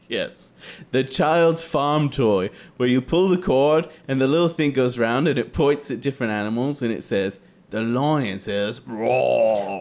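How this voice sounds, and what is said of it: Put-on British accent. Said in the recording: “Why do you have a British accent? ... talk like that now ... Now I'm going British Invasion.”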